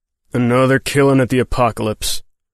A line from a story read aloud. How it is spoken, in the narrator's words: the marshal growled